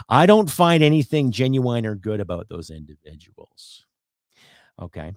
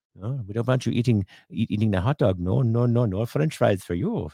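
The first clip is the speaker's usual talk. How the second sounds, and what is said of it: Terrible put-on German accent. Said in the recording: “I know it's a terrible German accent”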